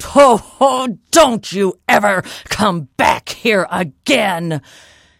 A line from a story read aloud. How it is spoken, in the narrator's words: giant yelled